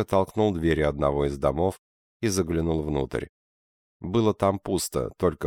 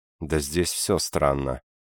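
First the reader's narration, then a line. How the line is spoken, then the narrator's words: Mumbled. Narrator (Russian): пробормотал Курнос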